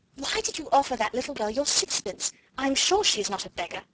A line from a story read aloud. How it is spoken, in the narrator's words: Janet exclaimed alarmedly